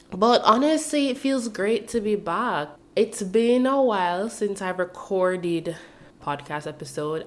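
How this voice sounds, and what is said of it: Sick, under-the-weather voice. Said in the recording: “I want to apologize for the way my voice sounds. I'm a bit under the weather. Your girl's been sick.”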